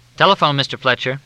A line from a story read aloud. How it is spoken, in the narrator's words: he said